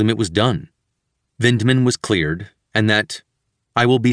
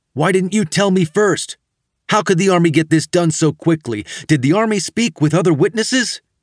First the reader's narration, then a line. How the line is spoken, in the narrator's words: We were quickly yelling at each other on the phone